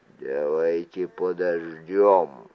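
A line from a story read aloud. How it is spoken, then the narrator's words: Quiet. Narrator (Russian): тихо сказал Далт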